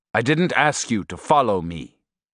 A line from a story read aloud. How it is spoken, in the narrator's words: he said in a severe voice